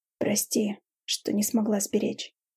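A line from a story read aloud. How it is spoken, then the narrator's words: Hoarse speech. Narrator (Russian): хрипло проговорила я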